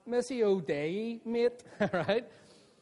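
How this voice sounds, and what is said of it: Belfast accent. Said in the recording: “Say in a Belfast accent”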